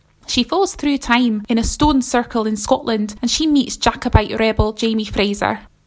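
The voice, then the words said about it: Attempted Scottish accent. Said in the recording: “I should probably try and say all of that in a Scottish accent. Shall I have a go? ... Yeah, that's the best I can do.”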